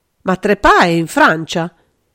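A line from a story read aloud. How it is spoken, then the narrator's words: Desperate exclamation. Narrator (Italian): esclamò aggrappandosi disperatamente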